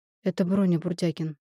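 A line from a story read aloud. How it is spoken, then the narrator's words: Quiet. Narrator (Russian): тихо сказала Оленька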